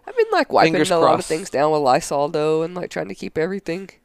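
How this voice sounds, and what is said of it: Deep, sick-sounding voice. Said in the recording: “sorry about my voice, guys... You sound like a dude right now.”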